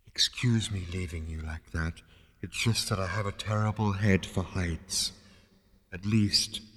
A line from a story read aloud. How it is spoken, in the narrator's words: it added wistfully